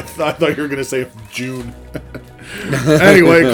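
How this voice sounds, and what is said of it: Usual voice. Nothing is said of it.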